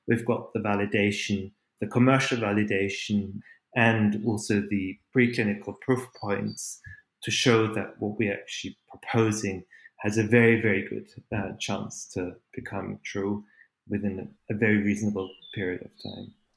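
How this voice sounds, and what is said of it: Austrian-German accented English. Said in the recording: “my accent is not from Calgary ... My parents are Austrian ... they dragged me back to Austria and Germany, and that's where I started to learn language. And now I'm stuck with this.”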